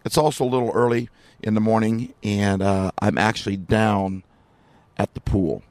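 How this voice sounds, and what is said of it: Slightly raspy voice from overuse. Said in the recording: “my voice is a little raspy because I've been speaking like every morning and every night”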